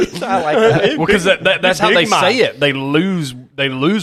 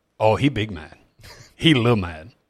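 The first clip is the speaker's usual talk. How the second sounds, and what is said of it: Put-on Caribbean accent. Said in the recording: “Why do you have like a Caribbean accent?”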